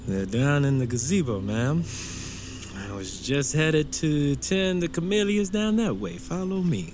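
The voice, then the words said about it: Southern Louisiana accent. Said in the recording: “You from down south, boy? I detect an accent. Cane River? ... You sound just like home.”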